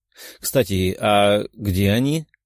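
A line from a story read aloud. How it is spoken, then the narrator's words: Plain question. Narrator (Russian): спросила Мария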